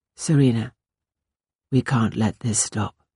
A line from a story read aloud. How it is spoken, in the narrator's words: he said in a distant, toneless voice